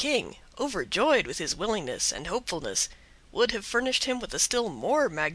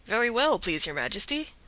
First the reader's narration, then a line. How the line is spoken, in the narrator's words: replied Avenant cheerfully